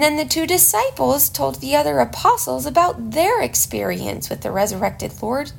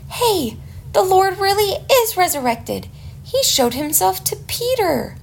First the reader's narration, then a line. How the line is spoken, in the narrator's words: the apostles excitedly told them